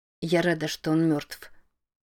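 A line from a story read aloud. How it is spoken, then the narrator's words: Quiet, grateful. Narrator (Russian): тихо и благодарно произнесла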